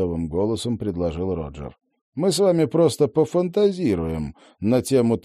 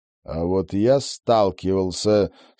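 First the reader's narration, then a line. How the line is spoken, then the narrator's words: Through gritted teeth. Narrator (Russian): сквозь зубы процедил Роджер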